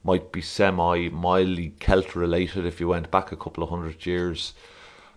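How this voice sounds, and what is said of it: Irish accent. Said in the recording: “That's an Irish accent... That's still not an Irish accent... You can hear it in my voice.”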